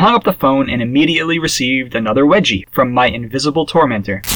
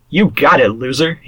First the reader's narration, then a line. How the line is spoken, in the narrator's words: he said